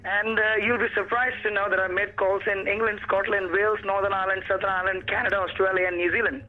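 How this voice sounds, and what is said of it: Mixed Australian and Indian accent. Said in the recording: “It's got an Australian Indian accent. ... You've mixed two accents”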